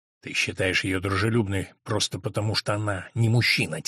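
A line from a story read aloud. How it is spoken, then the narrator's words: Quiet. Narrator (Russian): тихо сказал Брандт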